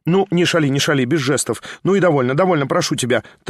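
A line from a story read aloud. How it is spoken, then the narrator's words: Hurried mutter. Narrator (Russian): торопливо бормотал Петруша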